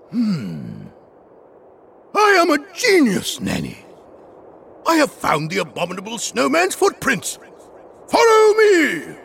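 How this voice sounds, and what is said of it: Booming, thundering character voice. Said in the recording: “in his booming voice ... He thundered.”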